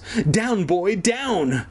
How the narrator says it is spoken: Kermit squealed

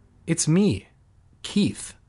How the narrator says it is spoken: he replied softly

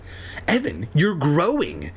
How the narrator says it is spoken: Andy exclaimed

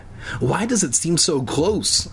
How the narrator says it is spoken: I exclaimed

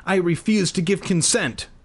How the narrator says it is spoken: I blurted out

